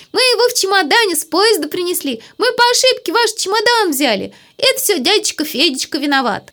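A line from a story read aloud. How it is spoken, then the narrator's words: Laughing, shouting gleefully. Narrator (Russian): Леночка смеялась, хлопала в ладоши и кричала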